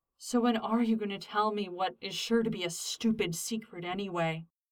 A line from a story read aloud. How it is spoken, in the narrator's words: grumbled Styles over the sounds of denim sliding over skin